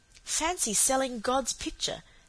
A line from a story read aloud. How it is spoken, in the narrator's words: said Cecily in a shocked, awed tone